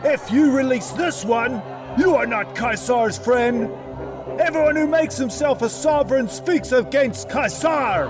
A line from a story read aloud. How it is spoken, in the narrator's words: the Yehudim shouted, saying